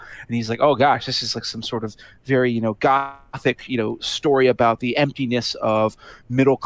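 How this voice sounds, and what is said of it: Usual voice. Nothing is said of it.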